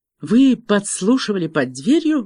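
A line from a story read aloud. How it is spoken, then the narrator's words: Breathless. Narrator (Russian): выдохнула она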